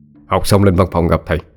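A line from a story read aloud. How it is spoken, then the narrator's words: Teacher, stern voice. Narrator (Vietnamese): thầy giáo đột nhiên bước đến bên cạnh cô, nghiêm giọng nói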